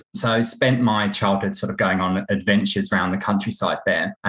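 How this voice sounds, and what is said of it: English accent. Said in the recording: “by your accent, you're an Englishman.”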